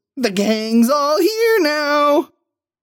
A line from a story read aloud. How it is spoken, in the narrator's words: squeals